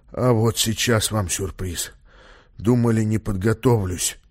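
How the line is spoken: Muttering. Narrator (Russian): бормотал он

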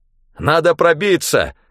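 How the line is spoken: Shouted. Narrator (Russian): выкрикнул я

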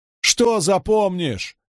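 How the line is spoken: Almost howling. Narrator (Russian): чуть не взвыла Найниф

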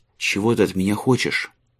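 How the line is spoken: Plain. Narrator (Russian): спросил Марк

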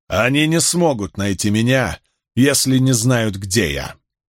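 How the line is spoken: Laughing. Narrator (Russian): Смеясь от того, что никто не понял его шутки, Ранд

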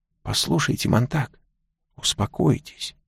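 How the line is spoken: Old man, soft. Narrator (Russian): мягко сказал старик

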